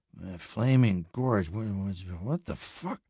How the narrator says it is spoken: He mumbled incredulously

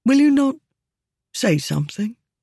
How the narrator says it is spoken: said Cyrus, his voice uncharacteristically subdued

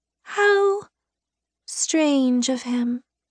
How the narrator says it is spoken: she murmured

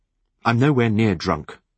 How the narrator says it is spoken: I retorted irritably

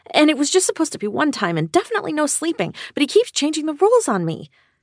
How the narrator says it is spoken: I blurted out to Steph

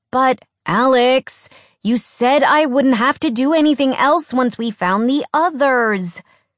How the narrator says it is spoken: Skyla whined

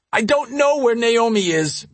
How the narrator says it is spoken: Matthew blurted out

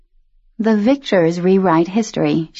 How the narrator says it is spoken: she murmured

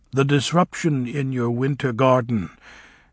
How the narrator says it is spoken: said Fiyero

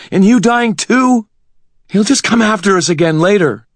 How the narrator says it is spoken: Karen gasped, her voice thin and breathless

